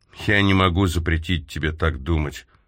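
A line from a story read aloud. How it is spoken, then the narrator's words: Soft. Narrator (Russian): мягко сказал он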